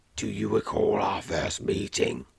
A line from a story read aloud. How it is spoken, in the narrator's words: he asks, his voice rolling through you in jolting waves